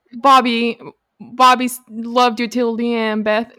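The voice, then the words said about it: Put-on Southern accent. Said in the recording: “Why am I giving her a Southern accent? I'm trying to do a New York accent, but it's just not.”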